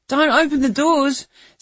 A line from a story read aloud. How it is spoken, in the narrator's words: Zack cried